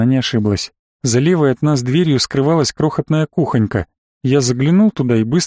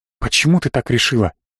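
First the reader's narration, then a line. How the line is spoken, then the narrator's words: Whisper. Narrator (Russian): Мы по-прежнему разговаривали шепотом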